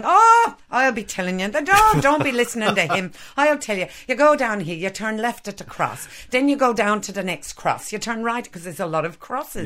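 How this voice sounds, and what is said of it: Poor imitation of an Irish accent. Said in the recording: “apologies to any Irish people out there who have just heard my hideous accent”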